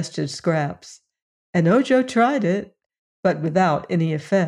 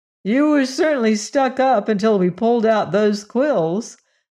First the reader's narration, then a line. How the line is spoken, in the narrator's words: observed Ojo with a laugh